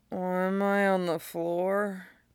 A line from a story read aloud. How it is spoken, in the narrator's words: slurs out